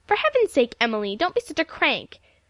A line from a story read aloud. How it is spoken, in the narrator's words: she exclaimed